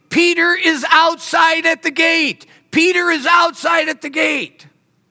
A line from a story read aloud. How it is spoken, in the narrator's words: she starts shouting at everybody